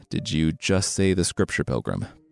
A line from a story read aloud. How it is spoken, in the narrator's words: Monkey mumbled